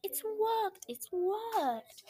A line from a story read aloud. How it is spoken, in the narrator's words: she cried